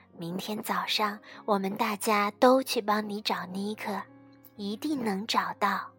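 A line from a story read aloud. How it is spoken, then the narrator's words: Soft quiet voice. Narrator (Chinese): 妈妈小声地说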